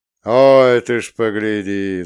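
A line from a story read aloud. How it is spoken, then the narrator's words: Laughing. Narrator (Russian): засмеялся Богомол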